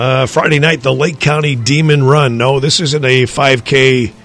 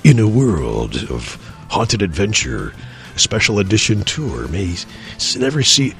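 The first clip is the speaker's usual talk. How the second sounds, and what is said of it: Movie trailer announcer voice. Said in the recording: “put on my my trailer voice”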